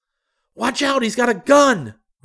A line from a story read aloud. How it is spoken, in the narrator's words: screamed